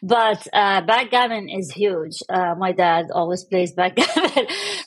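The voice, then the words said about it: Middle Eastern accent. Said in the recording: “I was born in the Middle East. I think you can tell from the accent.”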